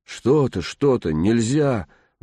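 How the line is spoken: Pleading. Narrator (Russian): взмолилась Глашка

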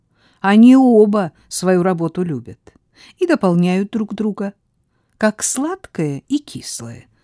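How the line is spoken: Plain. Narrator (Russian): сказала Марджори

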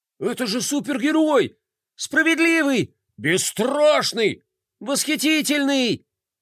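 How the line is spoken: Excited overlapping crowd shouts. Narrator (Russian): Наперебой закричали взволнованные горожане

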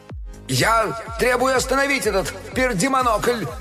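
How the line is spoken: Yelling into microphone. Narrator (Russian): заорал он в микрофон

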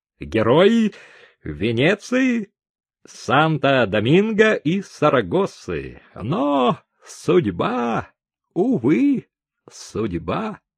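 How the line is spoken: Proud voice. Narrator (Russian): Человек с залысинами гордым голосом добавил

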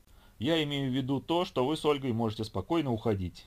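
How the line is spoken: Indifferent answer. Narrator (Russian): равнодушным тоном ответила Хо

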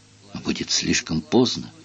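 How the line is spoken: Whisper. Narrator (Russian): прошептала голова

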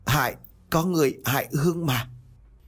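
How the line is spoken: Ghost, pained stammer. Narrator (Vietnamese): vong hồn của anh Hiệp với một vẻ mặt đau đớn lắp bắp

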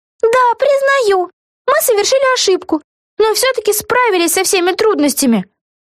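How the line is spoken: Exclaiming. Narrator (Russian): воскликнула Вега

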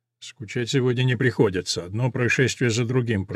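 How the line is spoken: Baron muttering around cigar. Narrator (Russian): пробормотал барон, посасывая сигару

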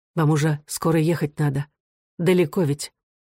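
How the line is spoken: Calmer continuing. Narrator (Russian): более спокойно продолжала

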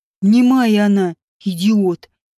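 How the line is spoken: Through gritted teeth. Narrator (Russian): процедил сквозь зубы Вааш

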